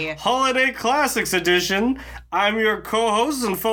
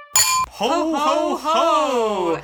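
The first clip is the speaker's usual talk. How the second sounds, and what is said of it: Jolly Santa Claus voice. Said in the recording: “faux Santa impersonator”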